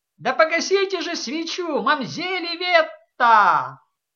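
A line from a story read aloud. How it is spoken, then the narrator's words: Clownish shout. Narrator (Russian): Серебеньи выкрикнул шутовским тоном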